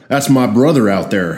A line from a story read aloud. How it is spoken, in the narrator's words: I said